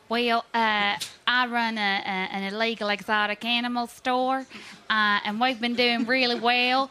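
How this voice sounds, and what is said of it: Put-on character accent. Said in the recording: “I love your accent. ... Really good.”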